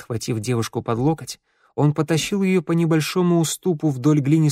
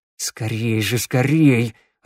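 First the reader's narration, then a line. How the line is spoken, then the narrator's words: Growling through teeth. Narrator (Russian): рычал сквозь зубы Теодор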